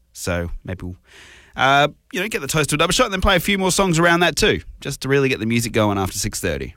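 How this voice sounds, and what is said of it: Sick, under-the-weather voice. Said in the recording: “I'm under the weather. I don't know if you can hear it in my voice. I'm not exactly firing at 100% today.”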